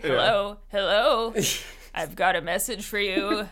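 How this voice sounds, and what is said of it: Eerie, flickery character voice. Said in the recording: “his voice sounds so... It's sort of flickery.”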